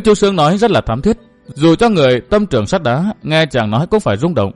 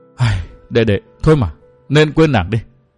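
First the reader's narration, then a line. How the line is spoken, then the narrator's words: Sighing. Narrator (Vietnamese): Hồng Nương Tử thở dài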